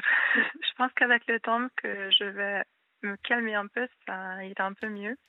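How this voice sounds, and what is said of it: Strong Hungarian accent in French. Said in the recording (French): “j'ai un très fort accent... quand je suis stressée, je sais que mon accent il est plus fort... Donc je suis hongroise.”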